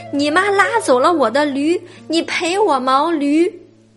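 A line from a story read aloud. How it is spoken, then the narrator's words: Shouting, then crying. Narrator (Chinese): 驴夫大叫一声，哭起来，…说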